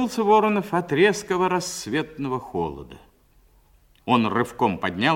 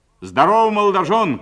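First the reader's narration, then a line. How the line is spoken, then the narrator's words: Shout. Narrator (Russian): крикнул Воронов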